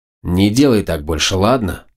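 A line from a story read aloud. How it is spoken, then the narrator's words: Angry snap. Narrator (Russian): зло бросил я Нике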